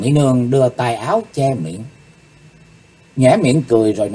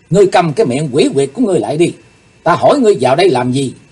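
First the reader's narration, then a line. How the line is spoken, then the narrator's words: Angry. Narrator (Vietnamese): Càng thêm tức giận, Chí Tôn trợn mắt nói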